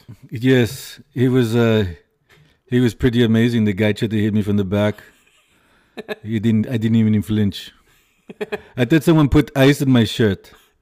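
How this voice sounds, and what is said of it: Imitates another person's voice. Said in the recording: “my Arnold impression... Some people say it's great. Good. Some people say it sucks... it's pretty good”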